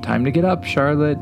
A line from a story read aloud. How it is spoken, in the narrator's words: called out cheerfully